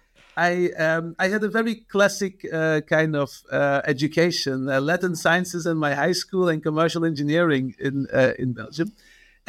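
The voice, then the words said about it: Belgian accent. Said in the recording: “I'm originally from Belgium, as you can still hear from my name and my accent.”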